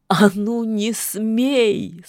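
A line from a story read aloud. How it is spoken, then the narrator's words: Sobbing scream, witch. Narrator (Russian): содрогаясь от рыданий, кричала ведьма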